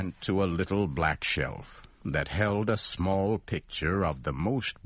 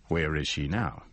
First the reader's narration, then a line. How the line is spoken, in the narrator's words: I asked